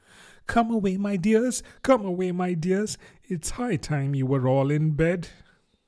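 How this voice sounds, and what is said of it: Trembling voice of a canary. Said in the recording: “a canary called out in a trembling voice to its children”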